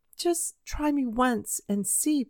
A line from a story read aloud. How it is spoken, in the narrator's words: pleaded the boy